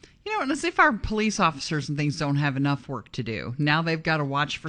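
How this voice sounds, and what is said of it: Usual voice. Nothing is said of it.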